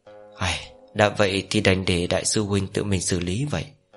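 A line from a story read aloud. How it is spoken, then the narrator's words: Sighing. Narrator (Vietnamese): Lão Đức thở dài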